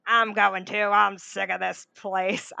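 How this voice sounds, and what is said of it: Gruff character voice. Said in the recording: “I'm giving him this gruff like accent”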